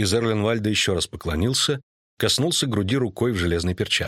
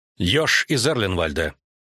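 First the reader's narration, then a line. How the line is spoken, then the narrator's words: Sharp. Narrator (Russian): резко сказала королева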